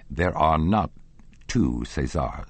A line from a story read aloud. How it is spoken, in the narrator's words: said the stud groom dryly